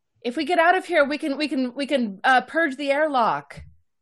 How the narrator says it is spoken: I would yell

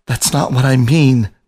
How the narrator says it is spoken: Biscuit pleaded, the confidence in his voice growing by minute degrees

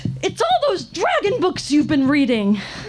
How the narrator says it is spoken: my mother screaming

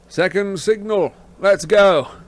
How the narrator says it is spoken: said Lupin loudly

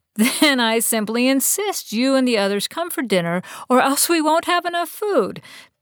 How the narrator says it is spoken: Bess said with a laugh, sounding more cheerful than she felt

